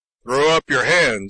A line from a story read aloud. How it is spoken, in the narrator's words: he ordered loudly